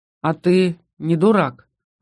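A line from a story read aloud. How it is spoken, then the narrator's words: Sighing. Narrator (Russian): вздохнул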